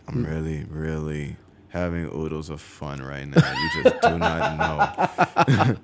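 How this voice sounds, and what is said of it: Very calm, laid-back voice. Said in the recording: “my voice is like always really, really chill”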